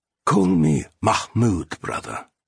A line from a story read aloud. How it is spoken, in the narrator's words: the stranger quietly said in Urdu